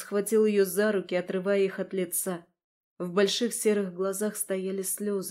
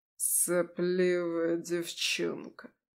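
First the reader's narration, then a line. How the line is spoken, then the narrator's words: Lazy, contemptuous. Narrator (Russian): Лениво, разглядывая ее точно насекомое, проговорил кронпринц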